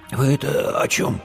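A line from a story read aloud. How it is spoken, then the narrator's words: Hoarse, croaking voice. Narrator (Russian): прохрипел Димка севшим голосом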